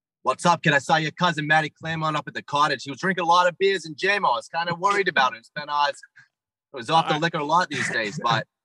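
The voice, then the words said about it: Exaggerated bad Boston accent. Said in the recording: “Give me your worst Boston accent.”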